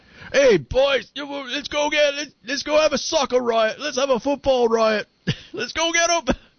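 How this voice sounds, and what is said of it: Put-on Cockney orc-like accent. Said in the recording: “The Cockney accent sounds like the orcs in Lord of the Rings.”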